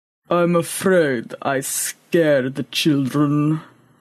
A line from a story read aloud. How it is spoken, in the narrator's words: rumbled Boaz